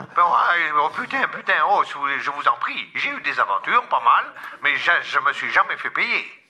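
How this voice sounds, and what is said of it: Comic character voice, Marseille accent. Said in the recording (French): “cette voix-là, cet accent... Mireille de Marseille”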